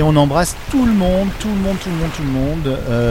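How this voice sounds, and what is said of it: Usual voice. Nothing is said of it.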